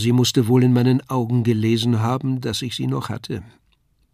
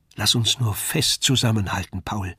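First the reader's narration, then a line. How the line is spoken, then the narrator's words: Said softly. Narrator (German): sagte sie leise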